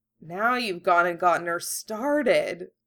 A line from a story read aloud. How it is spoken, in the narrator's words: Ron Muck grumbled